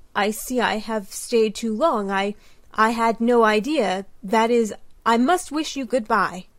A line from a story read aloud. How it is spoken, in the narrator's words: stammered Brantain